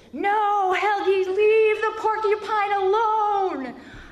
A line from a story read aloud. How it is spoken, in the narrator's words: I yelled into the night